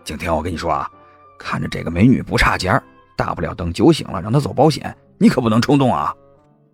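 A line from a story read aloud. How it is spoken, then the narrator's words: Lowered voice. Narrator (Chinese): 他压低了声音说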